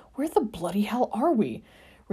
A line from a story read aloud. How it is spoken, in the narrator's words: Remus asked through gritted teeth